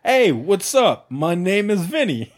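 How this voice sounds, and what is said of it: Almost Italian character voice. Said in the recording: “What is that voice ... It was almost Italian, but not quite. ... You'll start off a wee bit Scottish”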